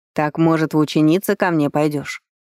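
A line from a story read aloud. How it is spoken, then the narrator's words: Snide, grinning. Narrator (Russian): ехидно оскалился Грапос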